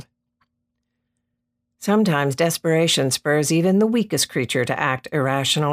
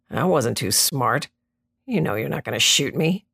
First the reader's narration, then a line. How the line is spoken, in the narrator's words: muttered